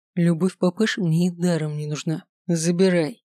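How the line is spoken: Plain. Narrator (Russian): ответил Кристен

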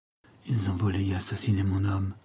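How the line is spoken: Murmured. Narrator (French): murmura-t-elle

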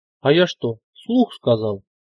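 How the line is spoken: Exaggerated frightened surprise. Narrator (Russian): преувеличенно испуганно удивленно сказал ляп

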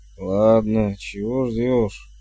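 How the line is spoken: Suspicious grumble. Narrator (Russian): Пробурчал он, еще не до конца избавившись от подозрений

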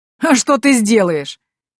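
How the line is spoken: Hoarse laughing. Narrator (Russian): хрипло засмеялся граф

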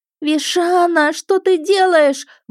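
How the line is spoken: Wailed. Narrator (Russian): взвыла я

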